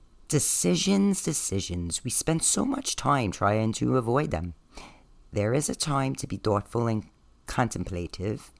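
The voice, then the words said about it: Staten Island New York accent. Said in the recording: “It's my Staten Island accent.”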